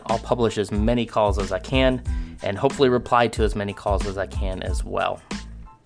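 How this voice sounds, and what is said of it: Slightly out of breath. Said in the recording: “Apologies if I'm a little out of breath. I just got back from the gym.”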